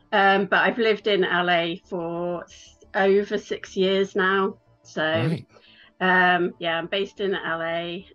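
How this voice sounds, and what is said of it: English Midlands accent. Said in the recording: “people can tell by your accent that you haven't got an American accent ... I'm from England, which you can probably tell. I'm from the Midlands in England”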